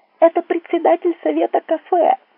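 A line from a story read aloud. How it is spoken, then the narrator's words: Shouting with full force. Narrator (Russian): что есть силы, закричала Светлана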